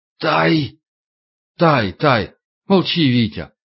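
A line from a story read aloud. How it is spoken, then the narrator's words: Hoarse. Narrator (Russian): Егоров прохрипел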